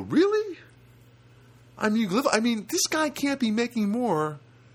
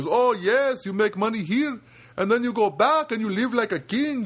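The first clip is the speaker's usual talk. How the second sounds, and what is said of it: Put-on Filipino accent. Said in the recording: “I don't do the greatest Filipino accent, but I'll do my best.”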